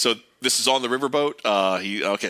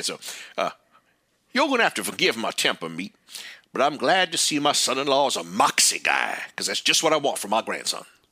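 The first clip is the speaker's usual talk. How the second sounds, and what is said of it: Put-on character accent. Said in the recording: “I love doing the accent”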